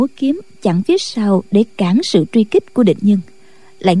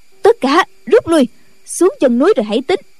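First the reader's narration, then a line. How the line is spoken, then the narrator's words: Shouted command. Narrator (Vietnamese): Định Tĩnh Sư Thái la lên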